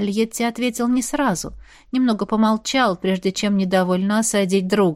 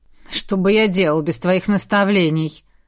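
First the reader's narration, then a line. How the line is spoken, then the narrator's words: Grumbling. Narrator (Russian): проворчал друг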